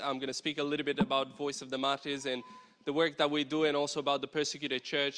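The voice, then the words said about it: Romanian-accented English. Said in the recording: “this weird accent that comes out the mic, it's not the mic, it's me. I literally grew up in Romania.”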